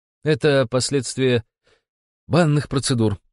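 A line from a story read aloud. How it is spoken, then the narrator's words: Strained, forced out. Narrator (Russian): выдавил я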